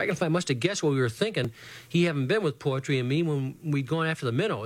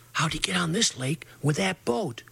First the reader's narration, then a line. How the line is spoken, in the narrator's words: whispered